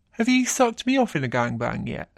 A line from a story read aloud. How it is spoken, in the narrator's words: grinning as he says